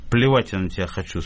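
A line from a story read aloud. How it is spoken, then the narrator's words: Calm. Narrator (Russian): спокойно сказал Передонов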